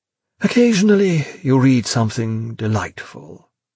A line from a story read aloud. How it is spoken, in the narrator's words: he said wistfully